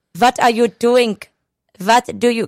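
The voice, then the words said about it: Exaggerated put-on German accent. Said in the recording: “a German accent ... every time I saw a W, I literally cross it off and put a V. I was trying too hard to do that accent.”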